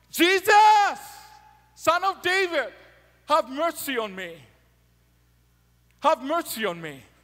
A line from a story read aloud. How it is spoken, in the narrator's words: Bartimaeus started shouting